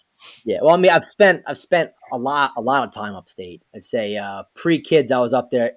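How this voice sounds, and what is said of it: Mild regional American accent. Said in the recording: “he's got an accent ... I definitely have one. I'm told from my upstate family that it's not as thick as it should be from down here.”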